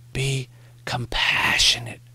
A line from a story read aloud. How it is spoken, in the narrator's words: Morrie whispered